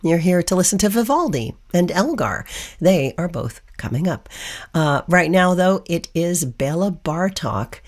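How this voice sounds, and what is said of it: Hoarse, froggy voice. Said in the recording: “Please forgive the hoarse voice. I'm a little froggy tonight”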